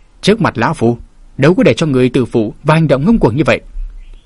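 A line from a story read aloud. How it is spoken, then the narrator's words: Harsh, stern. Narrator (Vietnamese): Lão gằn giọng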